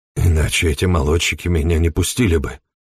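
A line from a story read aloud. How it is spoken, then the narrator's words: Muttered. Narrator (Russian): пробормотал Эмери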